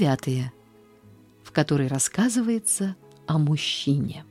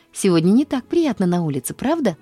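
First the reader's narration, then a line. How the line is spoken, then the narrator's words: Cheerful exclamation. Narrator (Russian): воскликнула она весело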